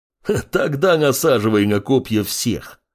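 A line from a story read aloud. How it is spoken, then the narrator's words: Laughing bear. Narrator (Russian): Рассмеялся медведь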